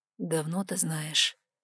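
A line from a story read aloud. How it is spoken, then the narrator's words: Hoarse, trembling. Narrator (Russian): хрипло проговорил Вайлар, вздрагивая всем телом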